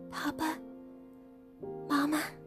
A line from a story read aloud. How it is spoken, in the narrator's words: said softly